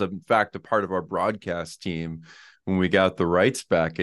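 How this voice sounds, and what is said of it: Usual voice. Nothing is said of it.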